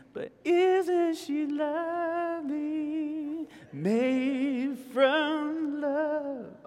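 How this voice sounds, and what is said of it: Singing in falsetto. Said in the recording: “That's my falsetto kicking in.”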